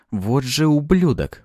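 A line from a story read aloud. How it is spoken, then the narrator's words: Muttered through teeth. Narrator (Russian): процедил я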